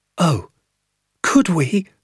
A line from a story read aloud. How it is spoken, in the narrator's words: I cried